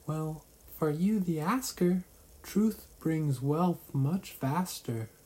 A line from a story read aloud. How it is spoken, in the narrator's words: The fairy squeaked